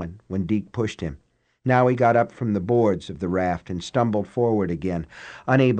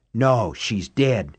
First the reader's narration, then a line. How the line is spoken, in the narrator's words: he whispered harshly